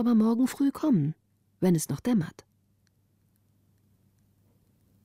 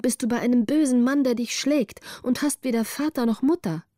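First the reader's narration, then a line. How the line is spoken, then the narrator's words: Called out. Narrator (German): rief Greta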